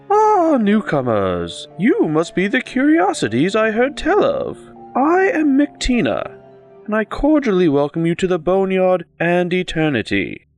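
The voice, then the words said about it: Lyrical voice with lilting accent. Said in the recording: “A lyrical voice ushers forth with a curious, lilting accent.”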